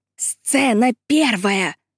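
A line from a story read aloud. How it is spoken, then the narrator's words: Hissing into ear. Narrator (Russian): шипела миссис Элмхерст мужу в самое ухо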